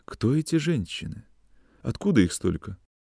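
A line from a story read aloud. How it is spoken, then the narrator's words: Timid, quiet question. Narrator (Russian): спрашивала Зиночка боязливо и тихо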